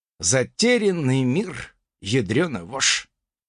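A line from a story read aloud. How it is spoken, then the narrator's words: Nervous mutter. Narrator (Russian): пробормотал я, нервно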